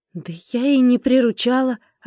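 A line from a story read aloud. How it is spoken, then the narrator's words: Plain. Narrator (Russian): ответила я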